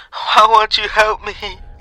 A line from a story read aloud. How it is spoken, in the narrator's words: She whimpered